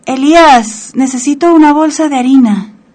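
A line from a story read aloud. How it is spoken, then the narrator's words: Shouted. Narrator (Spanish): gritó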